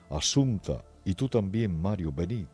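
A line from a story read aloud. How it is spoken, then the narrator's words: Horrified exclamation. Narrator (Spanish): Giovanni Serenelli ... al ver el horrible espectáculo que presenta ante sus ojos, exclama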